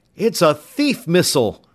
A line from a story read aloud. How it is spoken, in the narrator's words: Tom cried out